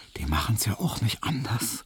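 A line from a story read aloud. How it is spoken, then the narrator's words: Smiling whisper. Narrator (German): flüsterte ihm Hedwig lächelnd zu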